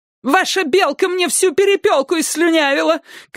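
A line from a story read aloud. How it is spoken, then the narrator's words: Shout. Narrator (Russian): кричала она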